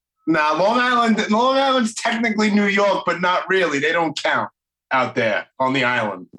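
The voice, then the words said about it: Brooklyn New York accent. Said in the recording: “Listen to that goddamn accent ... I'm in Brooklyn ... It's still the accent is similar”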